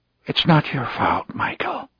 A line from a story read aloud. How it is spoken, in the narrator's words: McGuire whispered